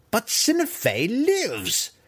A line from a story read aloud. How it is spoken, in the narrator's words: Malice cried